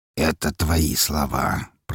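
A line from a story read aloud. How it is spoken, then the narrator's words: Through gritted teeth. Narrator (Russian): процедил Распутин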